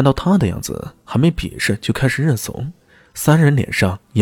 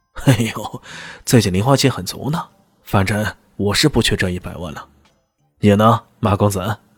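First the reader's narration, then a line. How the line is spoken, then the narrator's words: Pointed, pressing question. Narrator (Chinese): 他故意的去追问马明阳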